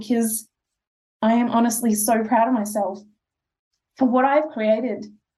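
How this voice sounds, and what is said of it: Teary, emotional voice. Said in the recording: “I'm going to get a little bit teary”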